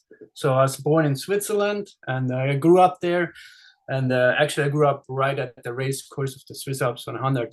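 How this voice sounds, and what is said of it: Swiss accent. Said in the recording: “As you might have figured, with my accent, I'm actually Swiss.”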